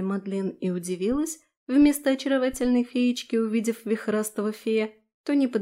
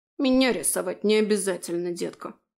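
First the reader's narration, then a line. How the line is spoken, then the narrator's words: Gruff grumble. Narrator (Russian): буркнул фей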